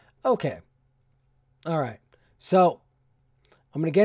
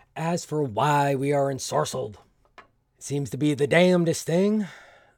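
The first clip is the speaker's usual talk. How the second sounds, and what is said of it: Poor, unidentifiable put-on accent. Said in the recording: “I don't even know what this accent is, so I apologize for that... Apparently, I was never good at accents.”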